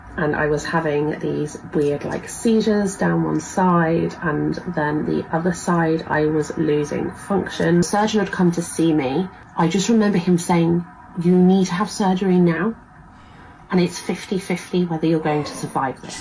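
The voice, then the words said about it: Distinctive regional accent. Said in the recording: “fun accent”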